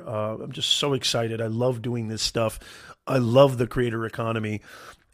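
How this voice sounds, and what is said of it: Slightly raspy voice. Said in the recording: “I apologize if my voice is a little... my voice might be a little on the raspy side”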